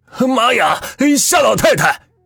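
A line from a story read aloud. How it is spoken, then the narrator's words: Shouting. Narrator (Chinese): 他喊的是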